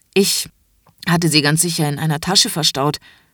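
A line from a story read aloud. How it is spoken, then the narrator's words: Embarrassed stammering. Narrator (German): stammelt Franz verlegen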